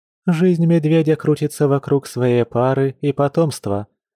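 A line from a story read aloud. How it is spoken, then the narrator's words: Calm explanation. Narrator (Russian): спокойно пояснила Катя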